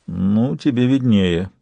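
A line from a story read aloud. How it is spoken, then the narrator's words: Grumbling. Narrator (Russian): проворчал Сварог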